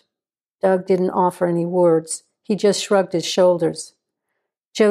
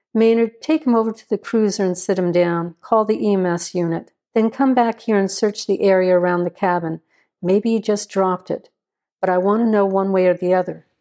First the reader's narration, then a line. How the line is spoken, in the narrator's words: Joe said